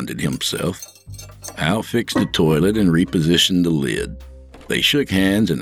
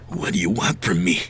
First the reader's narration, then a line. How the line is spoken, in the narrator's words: He whispered